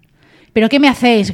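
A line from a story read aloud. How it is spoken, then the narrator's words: Shouting. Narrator (Spanish): gritaba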